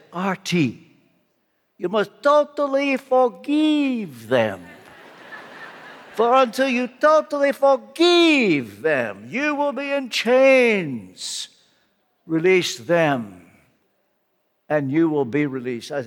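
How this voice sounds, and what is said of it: Imitated Romanian accent. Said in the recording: “in his Romanian accent”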